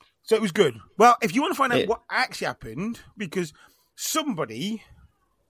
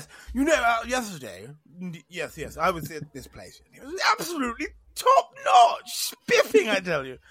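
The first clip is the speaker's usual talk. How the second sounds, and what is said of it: Exaggerated posh upper-class accent. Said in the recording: “You do that posh impersonation too good.”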